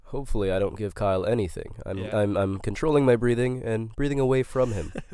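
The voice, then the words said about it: Nasal, congested sick voice. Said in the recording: “I'm a little under the weather ... my voice sounds a little bit nasally and I might have to cough a little bit here and there”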